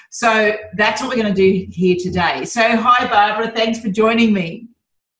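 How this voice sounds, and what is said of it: Australian accent. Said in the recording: “Barbara doesn't quite have the Aussie accent that I do”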